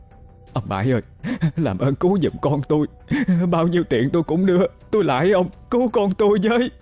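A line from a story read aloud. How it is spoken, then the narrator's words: Trembling, begging woman. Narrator (Vietnamese): Bà Ba ôm chặt lấy con, hai tay run rẩy, quay sang năn nỉ ông Bãi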